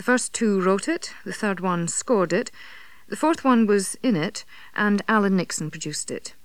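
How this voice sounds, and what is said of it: Scottish accent. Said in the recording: “I just sound Scottish ... The accent certainly had me fooled”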